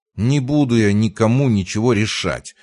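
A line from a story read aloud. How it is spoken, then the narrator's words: Irritated hiss. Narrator (Russian): раздраженно прошипел рядом Марк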